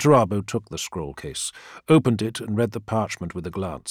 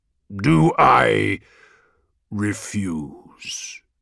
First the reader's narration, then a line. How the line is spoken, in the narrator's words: said Perturabo, and his voice was a roll of thunder in the bright air